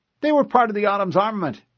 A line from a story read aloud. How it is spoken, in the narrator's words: the other officer answered cheerfully